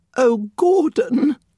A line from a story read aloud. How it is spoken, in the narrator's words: the woman whimpered